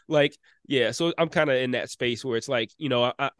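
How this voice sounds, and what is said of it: Slightly stuffy, congested voice. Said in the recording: “I thought maybe you sounded a little off ... I'm only like a little bit stuffy, so my voice is a little bit different.”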